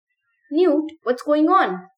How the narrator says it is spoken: He yelled

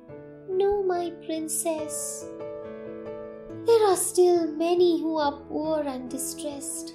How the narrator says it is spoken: the bird said sadly

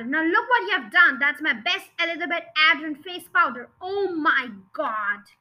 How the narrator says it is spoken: yelled the father

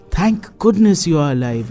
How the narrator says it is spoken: exclaimed Duggu

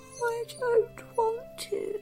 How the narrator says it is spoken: yawned Little Tiger

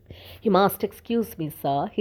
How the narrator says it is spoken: he said in a hoarse whisper

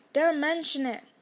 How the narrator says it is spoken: said Harry gruffly

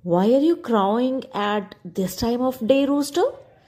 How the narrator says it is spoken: the cat asked

